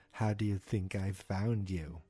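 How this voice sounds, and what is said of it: Stiff robotic character voice. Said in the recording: “my Brenner impersonation ... Why do I sound like this? I am a robot.”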